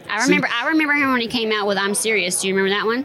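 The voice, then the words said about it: Georgia Southern accent. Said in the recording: “I'm originally from Georgia. You hear the accent.”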